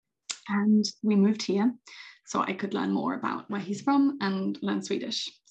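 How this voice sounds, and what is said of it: British accent. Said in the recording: “as you might be able to hear from my accent. I am not originally from Åland. I am British.”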